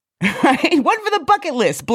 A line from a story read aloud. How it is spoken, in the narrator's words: blurts